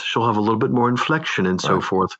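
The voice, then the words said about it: Softer, higher female voice. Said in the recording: “I soften my tone ... doing a female voice. I just soften it, lift the tone a little, lift the register a little bit and add a little bit more inflection”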